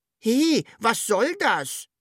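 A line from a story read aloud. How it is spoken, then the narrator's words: Calling upward. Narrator (German): rief das Sams zur Wunschmaschine hoch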